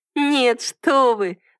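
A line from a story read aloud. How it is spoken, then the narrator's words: Girl's ringing laugh. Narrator (Russian): звонко рассмеялась девушка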